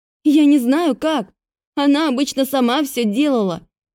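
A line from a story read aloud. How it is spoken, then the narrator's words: Terrified, not shouting. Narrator (Russian): не кричала, в ужасе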